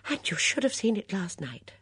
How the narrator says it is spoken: Miss Bunner exclaimed

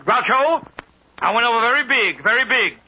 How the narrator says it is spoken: Sophie yelled

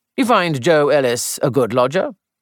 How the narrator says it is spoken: inquired Melchett in a seemingly careless tone

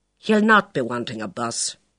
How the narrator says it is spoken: said firmly

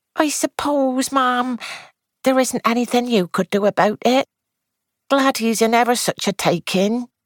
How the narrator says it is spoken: Edna said wistfully

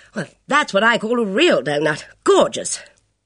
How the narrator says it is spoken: She exclaiming

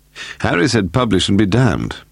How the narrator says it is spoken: Paul said wearily

